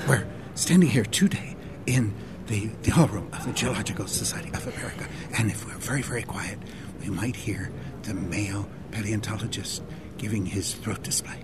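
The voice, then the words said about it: Imitates a nature documentary narrator. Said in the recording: “your David Attenborough impersonation”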